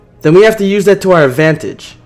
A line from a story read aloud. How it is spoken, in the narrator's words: shouted back